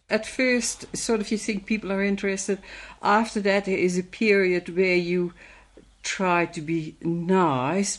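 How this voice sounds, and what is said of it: Dutch accent. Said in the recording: “migrated from Holland in the mid-1960s ... people ask her about her accent”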